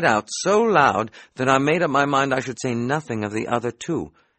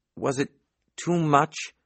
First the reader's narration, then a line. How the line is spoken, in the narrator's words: I asked, a little faltering